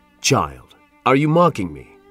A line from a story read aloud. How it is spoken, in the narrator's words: asked the Reverend